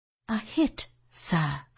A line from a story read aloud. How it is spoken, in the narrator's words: I murmured